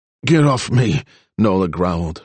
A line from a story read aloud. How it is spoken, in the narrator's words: her words slurring